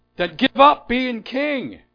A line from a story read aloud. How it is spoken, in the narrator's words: the old woman shouted out